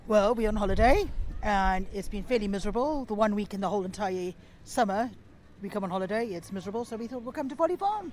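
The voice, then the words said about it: South African accent with a twang. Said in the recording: “the accent, the South African accent ... there's a very twang, got the twang ... this little twang”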